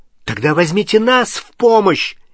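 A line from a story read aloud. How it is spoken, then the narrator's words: Angry shout. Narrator (Russian): сердито крикнул Невилл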